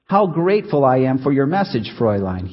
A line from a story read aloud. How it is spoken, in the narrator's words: he said